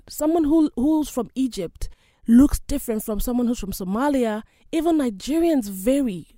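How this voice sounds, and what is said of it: Nigerian English accent. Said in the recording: “I come from one of the countries known as Nigeria. My accent is totally different from a Ghanaian.”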